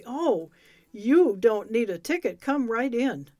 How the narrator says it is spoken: he cried excitedly

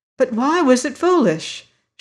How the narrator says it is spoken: she cried

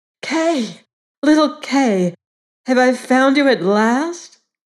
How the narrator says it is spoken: She cried

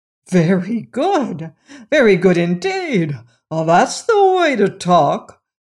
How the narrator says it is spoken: cried Roquat the Red, who was greatly pleased

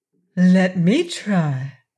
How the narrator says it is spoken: proposed the Rose Princess in her sweet voice

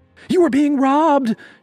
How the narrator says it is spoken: she screamed, faking surprise

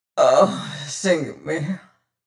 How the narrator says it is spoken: groaned Mings

